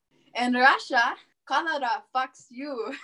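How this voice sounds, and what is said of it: Mock Russian accent. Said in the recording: “could you please deliver it for us in your best mock Russian accent?”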